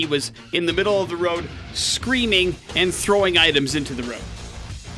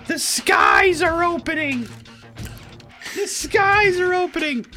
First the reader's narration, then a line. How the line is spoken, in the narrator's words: he started screaming